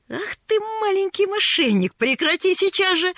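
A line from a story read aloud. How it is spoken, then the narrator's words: Laughing. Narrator (Russian): рассмеялся он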